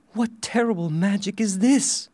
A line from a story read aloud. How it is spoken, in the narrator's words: she cried